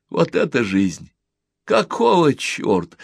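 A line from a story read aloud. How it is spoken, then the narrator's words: Laughing. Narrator (Russian): он смеялся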